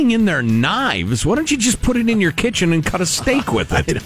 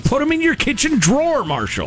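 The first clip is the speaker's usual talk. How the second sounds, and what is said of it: Yelling, raised loud voice. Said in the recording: “Why am I yelling at you?”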